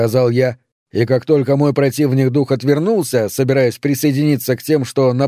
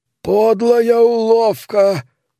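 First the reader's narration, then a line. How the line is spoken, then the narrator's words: Hoarse wheeze. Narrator (Russian): прохрипел другой дух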